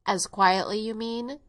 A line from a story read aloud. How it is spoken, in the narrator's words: went on, with a short laugh